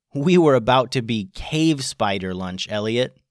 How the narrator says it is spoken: said Jude

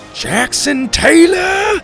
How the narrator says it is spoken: Graham bellowed

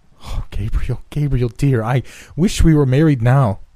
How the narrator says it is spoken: cried Evelyn in sudden distress

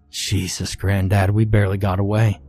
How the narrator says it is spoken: I gasped, still out of breath from our escape

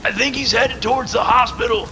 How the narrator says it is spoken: Furyk shouted over the wind

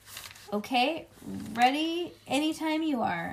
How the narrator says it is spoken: I yelled

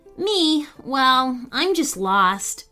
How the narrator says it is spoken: Fran replied sadly

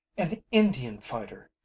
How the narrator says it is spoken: she cried

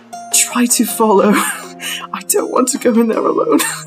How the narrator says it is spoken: whispering

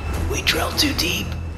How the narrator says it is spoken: I heard Georgie whisper

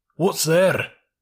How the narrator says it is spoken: said a sea lion gruffly

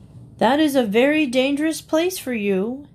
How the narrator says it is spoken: he called out, pretending to be worried about the goat's safety

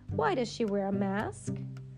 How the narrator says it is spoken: Thumper chuckled again

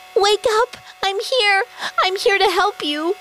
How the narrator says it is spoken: Red screamed

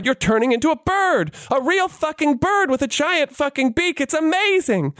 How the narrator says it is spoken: the little girl cried

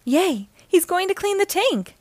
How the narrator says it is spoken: Nemo cried

